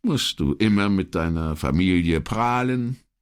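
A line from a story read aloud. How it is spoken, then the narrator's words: Mocking question. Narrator (German): fragte spöttisch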